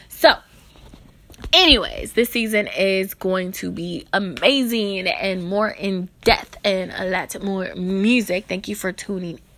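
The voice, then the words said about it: Tired, stumbling speech. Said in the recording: “I'm stuttering my words tonight because I am super tired”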